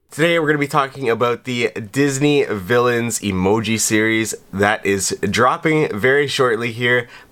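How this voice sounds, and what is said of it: Sick, strained-sounding voice. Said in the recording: “I've been sick. You can probably hear it in my voice. I can't quite speak as well.”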